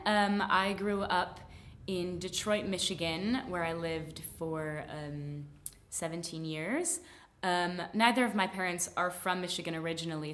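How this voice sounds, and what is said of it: General American accent. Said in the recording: “I have more of a general American accent than a true Midwestern accent, ... I am a standard American speaker.”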